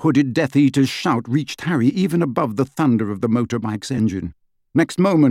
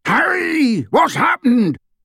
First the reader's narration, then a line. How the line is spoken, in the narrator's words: bellowed